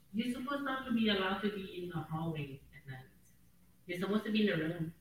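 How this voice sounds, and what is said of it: Woman with an Asian accent. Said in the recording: “a lady with an Asian accent”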